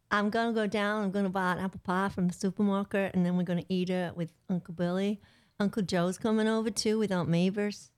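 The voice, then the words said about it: Unconvincing attempt at Southern accent. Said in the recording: “The southern one, maybe? ... That's not it.”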